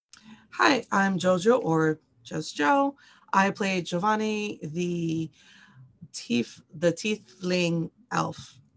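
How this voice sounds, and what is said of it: Raspy voice. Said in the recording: “I do apologize in advance for my raspy voice”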